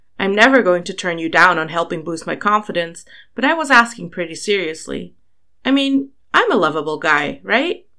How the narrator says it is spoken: sighed

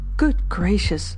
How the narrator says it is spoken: mentally exclaimed Chichikov

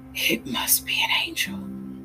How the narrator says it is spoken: he whispered

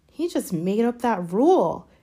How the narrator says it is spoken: Harry muttered angrily

